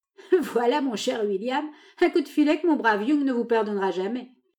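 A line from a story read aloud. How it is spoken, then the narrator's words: Laughing remark. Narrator (French): observa Kelly en riant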